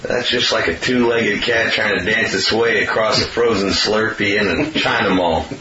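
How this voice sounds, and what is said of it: Put-on Southern accent. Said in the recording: “you affect the southern accent. It'll be like, it'll be all homespun ... Sounded southern.”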